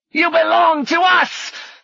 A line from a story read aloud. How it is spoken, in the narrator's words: Finch shouted